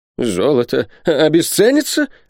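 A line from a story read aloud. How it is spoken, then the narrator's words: Exclaimed. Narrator (Russian): воскликнул Сяк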